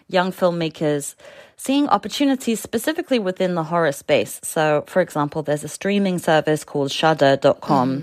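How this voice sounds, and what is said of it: Noticeable accent, hard to understand. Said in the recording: “My accent probably made that sound incomprehensible.”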